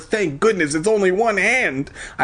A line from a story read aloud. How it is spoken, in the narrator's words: I cried